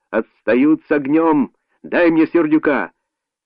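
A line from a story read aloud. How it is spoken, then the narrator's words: Shouting into phone. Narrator (Russian): он кричал в телефон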